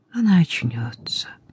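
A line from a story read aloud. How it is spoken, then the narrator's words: Soft, gentle. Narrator (Russian): мягко промолвил священник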